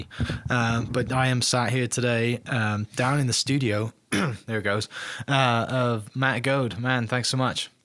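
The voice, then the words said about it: Raspy voice from a cold. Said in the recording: “Both of us today have a little bit of a cold, so excuse our raspy voices”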